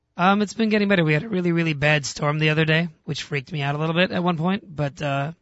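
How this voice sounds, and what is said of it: Voice in bad shape. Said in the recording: “your voice sounds almost as bad as mine does. ... my voice is doing pretty badly.”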